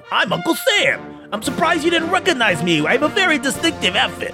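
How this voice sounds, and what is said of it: Character voice with New York accent. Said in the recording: “I want to say a New York accent”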